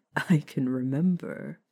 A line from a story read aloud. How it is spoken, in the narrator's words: sighed happily, feeling slightly terrible